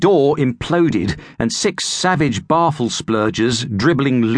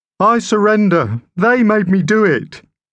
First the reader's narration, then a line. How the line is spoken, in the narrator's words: whimpering